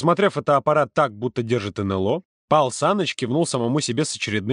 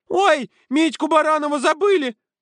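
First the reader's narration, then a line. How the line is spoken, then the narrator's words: Girls squeaking in chorus. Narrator (Russian): хором пискнули девочки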